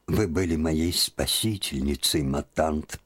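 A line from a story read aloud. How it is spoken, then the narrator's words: Sad voice. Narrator (Russian): проговорила она печальным голосом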